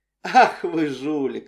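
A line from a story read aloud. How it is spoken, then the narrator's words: Laughing loudly. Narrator (Russian): расхохоталась Эдриен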